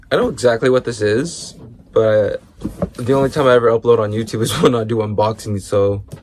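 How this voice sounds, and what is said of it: Sick-sounding, slightly weird voice. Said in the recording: “I'm sick, so my voice might sound a little weird.”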